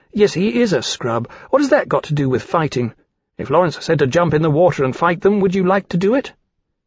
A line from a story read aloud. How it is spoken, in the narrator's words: Roland had said impatiently